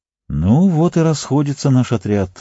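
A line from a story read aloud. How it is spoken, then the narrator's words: Sighing. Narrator (Russian): вздохнул Арагорн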